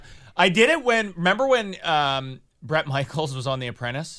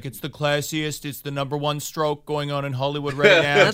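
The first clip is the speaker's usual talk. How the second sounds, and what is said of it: Donald Trump impression. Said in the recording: “I was on Y108 as Donald Trump ... your Trump impression”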